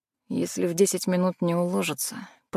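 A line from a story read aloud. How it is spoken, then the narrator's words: Muttering through teeth. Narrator (Russian): пробормотал Макс сквозь зубы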